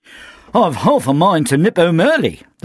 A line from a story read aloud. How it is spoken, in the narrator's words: called out from somewhere behind him